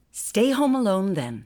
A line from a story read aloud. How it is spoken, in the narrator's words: her mother said sharply